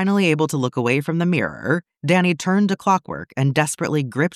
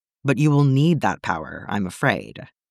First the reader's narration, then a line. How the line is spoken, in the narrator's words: Clockwork sighed